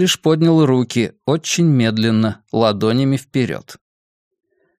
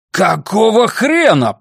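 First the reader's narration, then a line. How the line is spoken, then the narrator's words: Roaring. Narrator (Russian): проревел Твич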